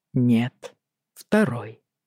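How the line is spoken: Quiet reply. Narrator (Russian): тихо ответил он

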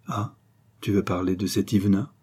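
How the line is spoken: Plain. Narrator (French): dit Henri

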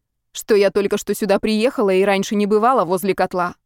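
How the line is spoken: Objected sharply. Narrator (Russian): резко возразила она

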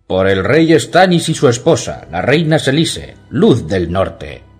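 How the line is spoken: Shouting. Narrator (Spanish): gritó Ser Axel

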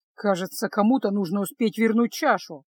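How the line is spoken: Grumbled. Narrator (Russian): проворчал Кайл

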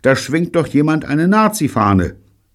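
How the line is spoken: Sudden shout. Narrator (German): rief Bunny plötzlich

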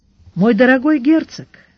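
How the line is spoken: Soft. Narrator (Russian): мягко сказал Сварог

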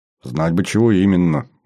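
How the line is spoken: Grumble. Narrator (Russian): буркнул я

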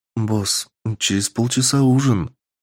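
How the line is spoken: Quiet, embarrassed girl's voice. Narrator (Russian): поняв намерение босса, сказала девушка тихим смущенным голосом

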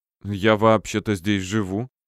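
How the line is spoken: Confused muttering young woman. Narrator (Russian): растерянно пробормотала девушка

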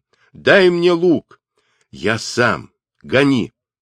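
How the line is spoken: Furious shout. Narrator (Russian): Темуджин ... с яростью крикнул

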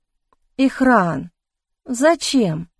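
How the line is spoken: Dejected voice. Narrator (Russian): упавшим голосом спросила я

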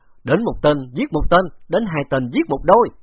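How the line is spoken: Loud laughter. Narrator (Vietnamese): Bạc Phong Hàn cười lớn

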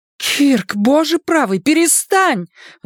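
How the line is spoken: Horrified exclamation. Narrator (Russian): в ужасе воскликнула Шарлотта

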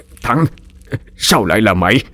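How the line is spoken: Stammering. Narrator (Vietnamese): ông Hành mới ú ớ lắp bắp

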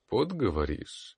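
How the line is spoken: Thoughtful. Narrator (Russian): задумчиво повторил

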